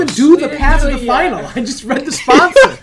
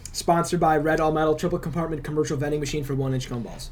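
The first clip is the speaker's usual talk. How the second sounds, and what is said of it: Reads very fast. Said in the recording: “That was a lot of words. Very quick.”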